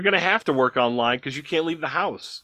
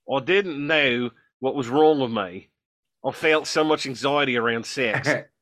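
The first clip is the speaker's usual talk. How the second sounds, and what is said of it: Put-on Australian accent. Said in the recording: “I'm gonna try to do an Australian accent”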